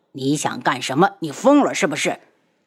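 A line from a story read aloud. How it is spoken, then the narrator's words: Angry grunt. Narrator (Chinese): 他闷哼一声，愤怒地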